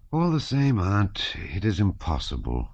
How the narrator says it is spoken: he rejoined with a sigh after a short pause

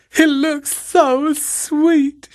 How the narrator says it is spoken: she wailed

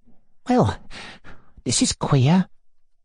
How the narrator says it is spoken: muttered our hero, petrified for a moment

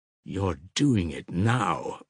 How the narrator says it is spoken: muttered Musaf with disgust

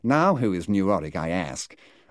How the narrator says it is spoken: remarking with a preposterous accent

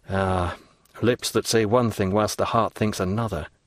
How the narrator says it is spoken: murmured Edmund

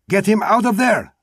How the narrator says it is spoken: Manuel shouted to the gypsy

